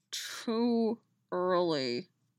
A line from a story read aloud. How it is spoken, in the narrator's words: Dolls muttered in her ear, his breath hot on her skin